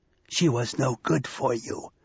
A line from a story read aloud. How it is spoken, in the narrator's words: whispered Loki